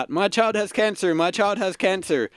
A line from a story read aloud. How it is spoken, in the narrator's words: So you successfully shout